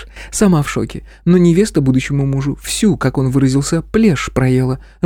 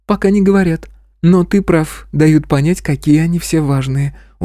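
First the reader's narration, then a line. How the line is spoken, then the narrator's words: Weary. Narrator (Russian): устало сказала директор Анастасии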